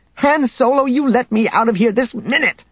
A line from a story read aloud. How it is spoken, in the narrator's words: she shouted